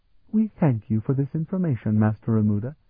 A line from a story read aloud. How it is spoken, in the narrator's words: she said sweetly